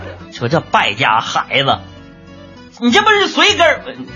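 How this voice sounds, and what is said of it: Usual voice. Nothing is said of it.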